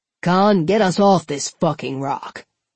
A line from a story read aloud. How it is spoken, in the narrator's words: Apone grumbled